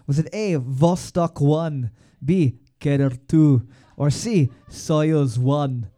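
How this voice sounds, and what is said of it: Put-on Russian accent. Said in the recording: “That's my Russian accent.”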